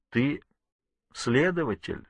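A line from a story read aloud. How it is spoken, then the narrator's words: Calm reply. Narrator (Russian): спокойно ответил Ворд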